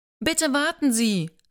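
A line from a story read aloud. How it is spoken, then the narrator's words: Called out. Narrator (German): rief Joanna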